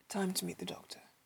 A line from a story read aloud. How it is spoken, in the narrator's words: she said grimly